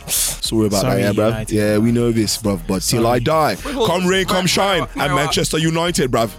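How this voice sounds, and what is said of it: Put-on British accent. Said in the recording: “Maybe that's your British accent.”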